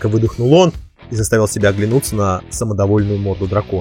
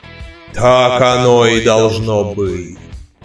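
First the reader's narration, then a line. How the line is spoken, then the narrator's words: Booming voice. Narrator (Russian): прогремел Гефестус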